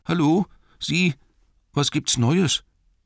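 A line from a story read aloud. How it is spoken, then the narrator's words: Trembling call. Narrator (German): rief er mit zittriger Stimme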